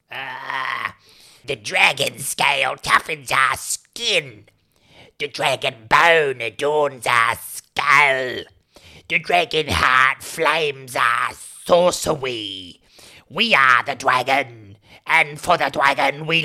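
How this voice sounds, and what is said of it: Performed kobold creature character voice. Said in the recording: “your best kobold impression ... your best kobold”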